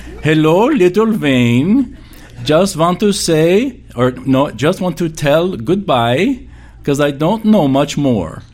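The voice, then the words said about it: Deep Russian accent, elderly woman. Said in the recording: “she had this deep Russian accent ... I can sound just like her”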